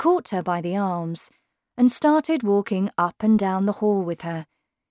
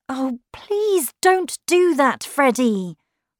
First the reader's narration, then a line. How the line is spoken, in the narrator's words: cried Lucy